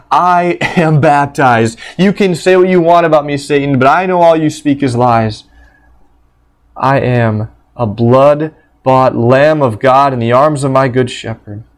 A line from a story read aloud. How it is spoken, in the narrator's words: he would shout out into the empty room